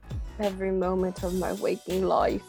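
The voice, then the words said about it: Poor attempt at cheeky British accent. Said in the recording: “you can't do the, the cheeky British accent.”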